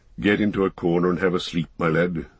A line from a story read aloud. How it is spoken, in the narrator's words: he said in a kinder tone